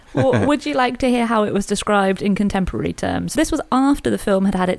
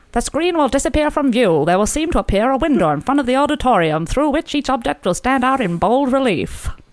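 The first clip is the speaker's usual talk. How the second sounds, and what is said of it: 1920s-style contemporary announcer voice. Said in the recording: “Shall I do the voice? Shall I do a contemporary voice? ... back to the 1920s”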